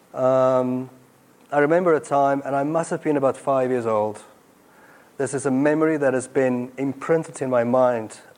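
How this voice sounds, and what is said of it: South African accent. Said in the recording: “I grew up in apartheid South Africa... My accent gives me away.”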